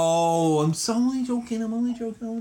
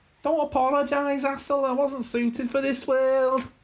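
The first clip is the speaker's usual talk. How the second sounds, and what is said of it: Silly put-on character voice with accent. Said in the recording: “Not with that accent ... I'm only doing silly voices”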